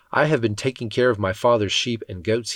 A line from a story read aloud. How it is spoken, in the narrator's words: said